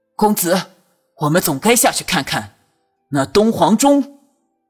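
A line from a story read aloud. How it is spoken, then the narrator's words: Loud voice. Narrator (Chinese): 高声道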